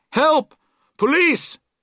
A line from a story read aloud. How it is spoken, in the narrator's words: she would shout